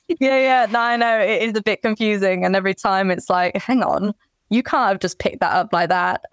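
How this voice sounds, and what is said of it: British English accent. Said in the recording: “your accent is misleading. Beautiful ... my whole family are from the UK, so that's kind of also why I have the accent”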